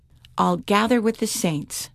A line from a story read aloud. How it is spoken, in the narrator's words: Jane said